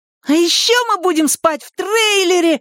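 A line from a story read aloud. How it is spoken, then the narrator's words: Excited child's yell. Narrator (Russian): восторженно завопил младший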